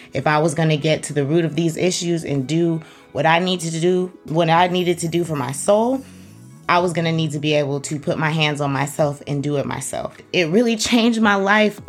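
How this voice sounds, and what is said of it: Shaky, emotional voice. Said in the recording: “My voice is shaky because I just want you to understand how much Reiki changed my life.”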